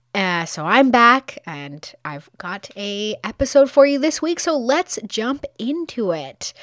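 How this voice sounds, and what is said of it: Weak, recovering hoarse voice. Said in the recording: “I lost my voice. My voice is just starting to come back.”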